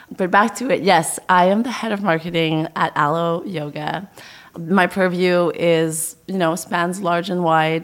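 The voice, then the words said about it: Crackly, strained voice. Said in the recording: “my voice is killing out. So if I have a crackly voice”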